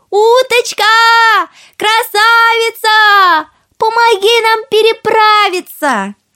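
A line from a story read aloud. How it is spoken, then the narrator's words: Calling out. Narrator (Russian): крикнула уточке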